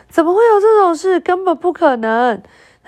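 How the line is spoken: Loud shout. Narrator (Chinese): 他的爸爸就拉开嗓门喊着

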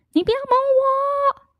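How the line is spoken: Screaming. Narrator (Chinese): 他会用尖叫来拒绝你

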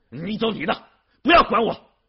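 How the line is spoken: Angry shouting. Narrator (Chinese): 玉后以为他还要劝自己去参加批判会 吼叫说

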